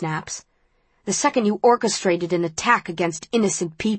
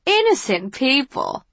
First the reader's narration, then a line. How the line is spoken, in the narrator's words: Janine laughs